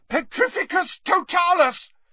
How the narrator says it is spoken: yelled Harry, struggling to cling on

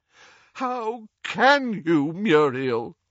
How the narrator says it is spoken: groaned Doge

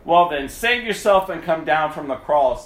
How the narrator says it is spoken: cried out or they were taunting

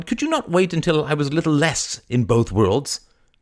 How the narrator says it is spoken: cried

